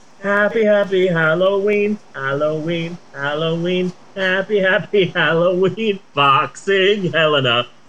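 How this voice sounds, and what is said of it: Sings an imitated movie jingle. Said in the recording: “my impression of Halloween three”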